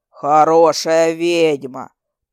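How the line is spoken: Booming forest spirit. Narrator (Russian): прогудел леший

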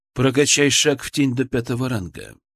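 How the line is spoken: Calm. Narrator (Russian): произнес эзотерик, спокойно

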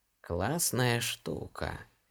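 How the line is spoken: Drawling, ambiguous tone. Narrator (Russian): с непонятной интонацией протянула женщина

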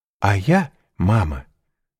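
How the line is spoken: Plain. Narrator (Russian): сказала Рене

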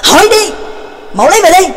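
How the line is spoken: Angry snap. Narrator (Vietnamese): tức giận gắt lên

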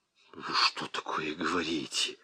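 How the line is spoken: Hissing. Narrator (Russian): зашипел Ермолкин

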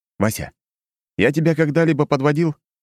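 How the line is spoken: Forced out through gritted teeth. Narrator (Russian): Послышался зубовный скрежет, и Ершов выдавил из себя

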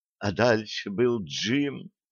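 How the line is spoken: Reverent whisper. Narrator (Russian): благоговейно прошептала Стесси

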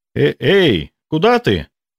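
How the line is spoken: Shouted after. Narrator (Russian): вслед прокричал мне Борька

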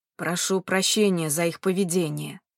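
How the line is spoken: Calm old man. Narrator (Russian): спокойным голосом произнес дедушка

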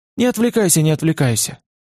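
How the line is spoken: Gentle, affectionate. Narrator (Russian): ответил Олег ласково

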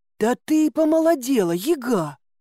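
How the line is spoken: Exclaimed. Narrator (Russian): воскликнул Илья

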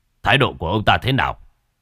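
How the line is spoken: Softened voice. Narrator (Vietnamese): Giọng nói của sếp có phần dịu lại

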